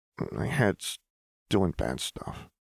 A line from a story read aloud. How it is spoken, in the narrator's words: Jinx mumbled